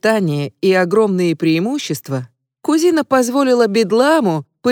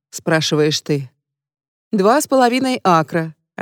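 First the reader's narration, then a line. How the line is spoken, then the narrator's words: Glum answer with smile. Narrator (Russian): отвечает двоюродный зять, уныло улыбаясь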